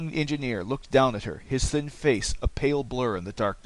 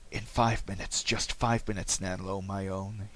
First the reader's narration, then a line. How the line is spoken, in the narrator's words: he whispered